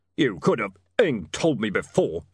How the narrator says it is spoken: he muttered

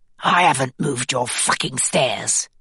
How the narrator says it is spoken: he hisses

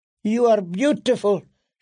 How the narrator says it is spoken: she blurted

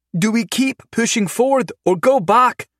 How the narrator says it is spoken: Carly called out, panic tinging her voice

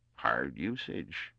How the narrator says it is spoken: murmured Twer bitterly

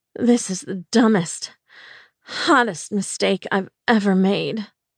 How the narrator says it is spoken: I moaned

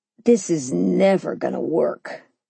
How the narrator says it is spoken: he muttered

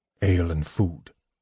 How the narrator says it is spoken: he said

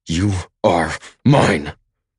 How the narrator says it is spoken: I growl

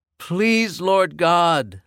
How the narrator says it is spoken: I yelled

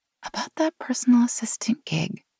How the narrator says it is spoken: Meg whispered

